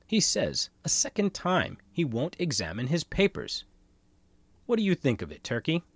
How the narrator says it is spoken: exclaimed in an excited manner

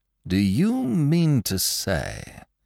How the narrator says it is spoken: said the detective, slowly

